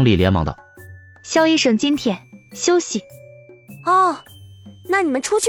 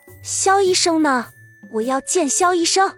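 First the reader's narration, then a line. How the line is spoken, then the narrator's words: Frowning woman, displeased. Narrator (Chinese): 一个叫赵红的女病人皱起眉头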